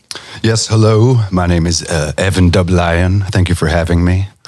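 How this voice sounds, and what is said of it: Put-on radio voice. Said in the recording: “I don't know why I'm doing this voice here now, but it's quite fun... I think it works for radio. It's a radio voice.”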